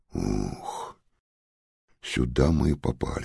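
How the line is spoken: Sighed. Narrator (Russian): вздохнул Ярик

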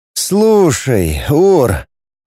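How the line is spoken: Drawl. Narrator (Russian): протянул Роман

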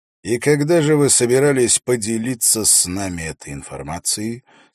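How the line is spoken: Deceptively calm question. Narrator (Russian): спросил Холт обманчиво спокойным тоном

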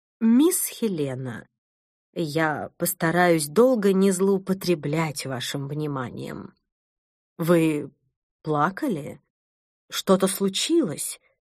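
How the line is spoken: Calm voice. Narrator (Russian): произнесла она спокойным голосом

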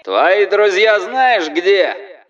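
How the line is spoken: Yelling over loudspeaker. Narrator (Russian): орал через диспетчерский суперусилитель какой-то люмпен

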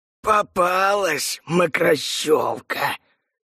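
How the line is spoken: Malicious hiss. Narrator (Russian): прошипел злобный голос

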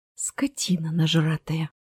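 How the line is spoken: Forced out. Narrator (Russian): выдавила

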